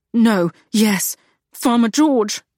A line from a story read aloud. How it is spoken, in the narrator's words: he whimpered